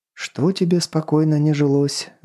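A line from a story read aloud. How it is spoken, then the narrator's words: Sighed. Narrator (Russian): вздохнул Кренц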